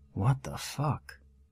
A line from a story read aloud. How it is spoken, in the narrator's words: mumbled to myself